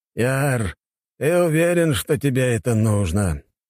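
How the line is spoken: Old man's heavy sigh. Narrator (Russian): дед тяжело вздохнул

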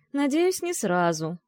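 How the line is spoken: Sighed. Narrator (Russian): вздохнул Макс

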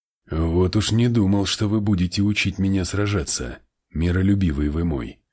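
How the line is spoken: Plain. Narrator (Russian): сказал он

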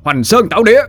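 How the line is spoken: Shouted battle cry. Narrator (Vietnamese): Dũng quát

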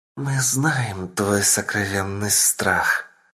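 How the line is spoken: Female whisper. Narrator (Russian): раздался женский шепот

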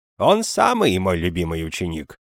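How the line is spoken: Cheerful exclamation. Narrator (Russian): воскликнул Игнаций весело

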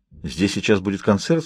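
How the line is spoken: Plain. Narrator (Russian): спросил я

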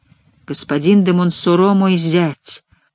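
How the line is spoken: Stunned muttering. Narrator (Russian): все еще бормотал ошеломленный барон де Меридор

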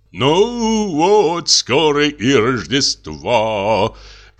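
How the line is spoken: Singsong. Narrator (Russian): говорил нараспев отец

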